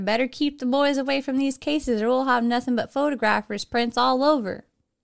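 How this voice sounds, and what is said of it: Put-on Texas-sounding accent. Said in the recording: “They're from New York, so I doubt they have a Texas accent... I don't have a good New York accent.”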